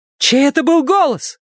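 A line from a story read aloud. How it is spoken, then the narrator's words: Shout. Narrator (Russian): крикнула Вера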